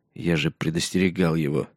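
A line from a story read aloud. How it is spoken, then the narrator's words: Quiet. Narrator (Russian): негромко сказал Джон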